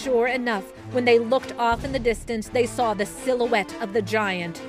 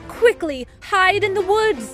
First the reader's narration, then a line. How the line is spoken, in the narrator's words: Alice exclaimed